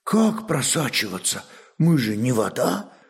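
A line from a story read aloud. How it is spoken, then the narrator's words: Surprised child's whisper. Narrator (Russian): шепотом удивился малец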